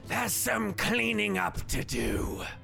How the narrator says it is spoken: He hisses out

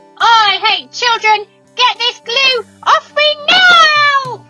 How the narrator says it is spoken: Miss Humplebum was screaming

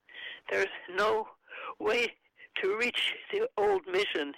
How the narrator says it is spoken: he gasped

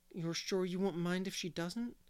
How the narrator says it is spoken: said Paul anxiously

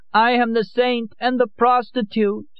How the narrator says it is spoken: Lorenza cried

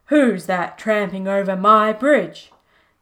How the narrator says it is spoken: roared the troll

